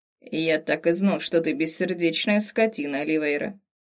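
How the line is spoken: Grumbling, mock upset. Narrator (Russian): Проворчал в мнимом расстройстве пустынный волк

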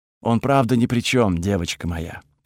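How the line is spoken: Slightly sad explanation. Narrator (Russian): пояснила Тхаги немного грустным голосом

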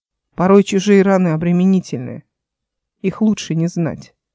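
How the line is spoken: Quiet. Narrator (Russian): Эл сказала тихо

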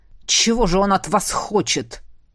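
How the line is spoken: Growled. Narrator (Russian): прорычал Седерик

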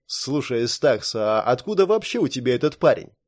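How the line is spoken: Thoughtful question. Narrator (Russian): Задумчиво спросил Ликс

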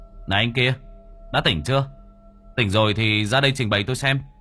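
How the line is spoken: Loud voice. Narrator (Vietnamese): Báu to tiếng

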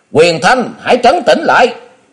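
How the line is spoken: Sharp shout. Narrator (Vietnamese): tiếng quát của Thiên Thần Tử

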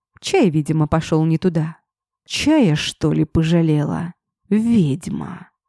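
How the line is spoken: Hoarse wheeze, coughing. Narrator (Russian): Просипел хрипло, пытаясь откашляться

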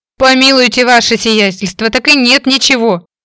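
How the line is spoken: Wailing, pleading. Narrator (Russian): взвыл мужчина, падая на колени

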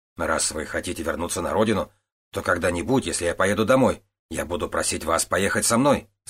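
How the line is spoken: Plain. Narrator (Russian): сказал Тан Ао

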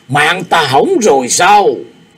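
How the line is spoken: Panicked scream. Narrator (Vietnamese): Độc Thánh Lương Kỳ hét lên thất thanh

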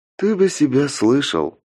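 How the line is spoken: Heavy sigh. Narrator (Russian): тяжело вздохнула Алена

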